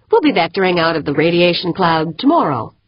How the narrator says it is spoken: announced cheerfully

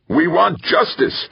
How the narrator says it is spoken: a voice yelled from the crowd

